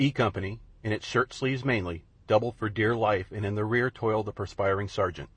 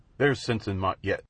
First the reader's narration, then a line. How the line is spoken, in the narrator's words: said Devlin